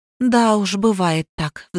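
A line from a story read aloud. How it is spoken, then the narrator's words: Sigh. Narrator (Russian): вздохнула провизор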